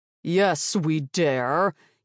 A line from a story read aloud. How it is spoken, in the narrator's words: Helion boomed